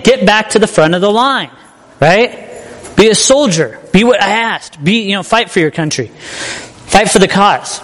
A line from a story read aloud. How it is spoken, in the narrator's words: So he yells again